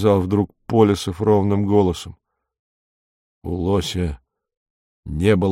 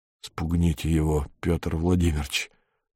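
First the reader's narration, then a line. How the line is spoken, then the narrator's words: Whisper. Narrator (Russian): прошептал Беркут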